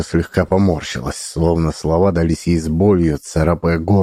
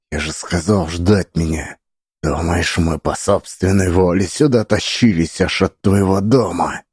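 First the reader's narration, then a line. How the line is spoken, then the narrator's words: Hissing. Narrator (Russian): прошипела Лидия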